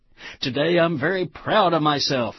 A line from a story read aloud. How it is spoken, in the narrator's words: exclaimed the strangely coiffed ego